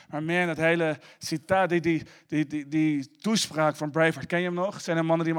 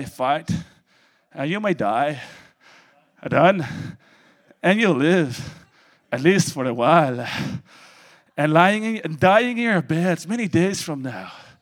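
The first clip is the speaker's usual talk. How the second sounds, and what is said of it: Rusty put-on Scottish accent. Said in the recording (Dutch): “Mijn Schots accent is wat roestig”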